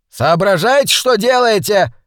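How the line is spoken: Furious yell. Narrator (Russian): яростно завопил он

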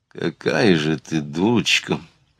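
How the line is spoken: Muttering through teeth. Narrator (Russian): пробормотал он сквозь зубы

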